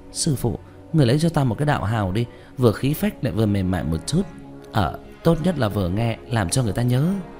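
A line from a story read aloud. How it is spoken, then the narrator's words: Pleading. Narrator (Vietnamese): Trương Tiểu Nhị khoác tay của hắn năn nỉ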